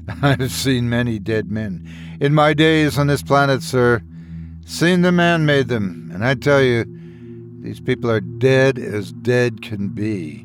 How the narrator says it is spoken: Bo Quang Ki uttered a cynical laugh and snapped

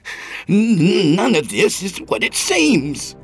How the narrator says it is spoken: he cried

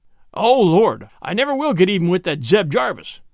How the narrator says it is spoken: groaned Ezra

